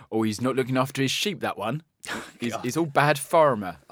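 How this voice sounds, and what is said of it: Put-on accent. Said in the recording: “See, I knew he'd do an accent.”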